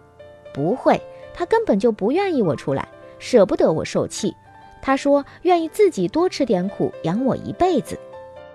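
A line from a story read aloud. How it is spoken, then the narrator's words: Laughing heartily. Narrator (Chinese): 阿敏却哈哈大笑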